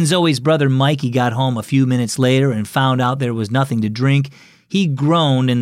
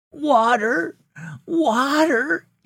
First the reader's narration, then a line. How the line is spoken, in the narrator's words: cried weakly